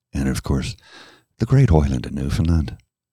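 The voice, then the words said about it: Put-on Irish-like Newfoundland accent. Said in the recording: “I did say that with a bit of an Irish accent ... do a Newfoundland accent”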